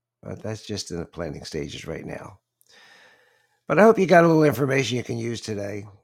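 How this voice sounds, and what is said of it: Choppy, allergy-affected voice. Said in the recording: “my voice is a little bit choppy, but a lot of allergies”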